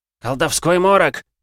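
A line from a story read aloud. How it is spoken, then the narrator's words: Shout. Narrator (Russian): крикнул Ружан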